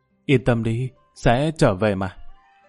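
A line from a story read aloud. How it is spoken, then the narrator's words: Soft gentle speech. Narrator (Vietnamese): khẽ nói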